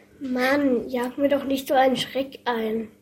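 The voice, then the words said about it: Whispering. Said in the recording (German): “flüsterte”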